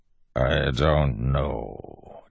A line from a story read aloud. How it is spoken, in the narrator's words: Tensun said, voice even more a growl than before